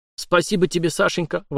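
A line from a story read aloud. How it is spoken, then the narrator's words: Delighted exclamation. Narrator (Russian): воскликнул Витька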